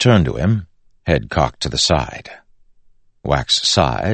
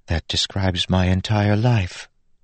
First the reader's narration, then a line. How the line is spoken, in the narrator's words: Steris said softly